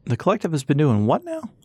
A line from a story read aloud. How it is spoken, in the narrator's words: old Harley exclaimed